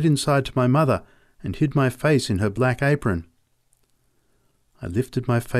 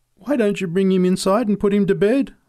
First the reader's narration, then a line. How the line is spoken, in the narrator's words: I pleaded